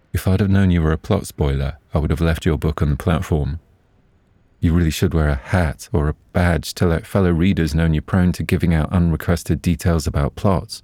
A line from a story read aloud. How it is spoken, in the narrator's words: sadly, and with an almost imperceptible twinkle in his eyes said